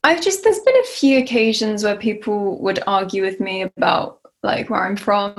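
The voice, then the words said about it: English accent. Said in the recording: “You literally have an English accent, which is true. I mean, I do. I have such an English accent”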